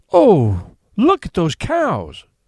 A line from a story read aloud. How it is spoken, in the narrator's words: exclaimed the aunt